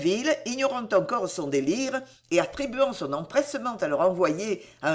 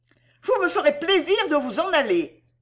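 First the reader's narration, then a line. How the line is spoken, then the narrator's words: Impatient exclamation. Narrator (French): s'écria-t-elle d'un ton d'impatience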